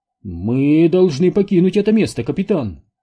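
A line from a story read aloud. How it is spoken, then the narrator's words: Agitated chaplain. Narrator (Russian): взволнованно проговорил капеллан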